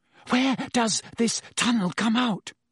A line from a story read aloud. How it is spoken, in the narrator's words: Hermione asked breathlessly